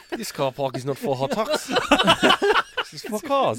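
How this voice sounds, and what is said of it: Put-on South African accent, slightly Kiwi. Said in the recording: “Excellent South African accent ... A bit of kiwi on the end there. ... He's South African, but he gets a kiwi flange.”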